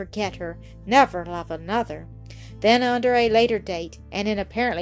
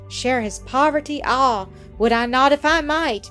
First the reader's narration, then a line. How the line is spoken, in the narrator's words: Mildred cried half aloud and with a burst of tears